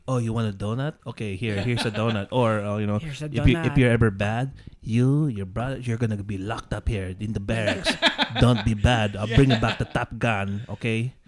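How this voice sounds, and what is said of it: Put-on heavy accent imitating a parent. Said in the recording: “I have to do everything in the accent”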